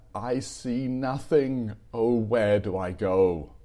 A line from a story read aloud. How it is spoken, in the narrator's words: cried in despair